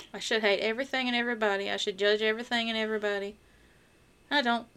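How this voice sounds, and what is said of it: Noticeable regional accent. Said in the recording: “if you can't tell by my accent”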